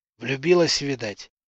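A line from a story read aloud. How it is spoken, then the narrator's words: Whispered joke. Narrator (Russian): Также шепотом пошутил Гриня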